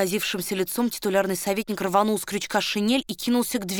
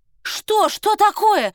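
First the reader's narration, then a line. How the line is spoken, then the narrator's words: Frantic scream. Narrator (Russian): истошно закричала Варя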